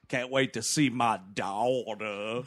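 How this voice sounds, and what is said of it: Put-on swampy Southern movie voice. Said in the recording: “Is this voice he's doing? ... A gator bait accent, man.”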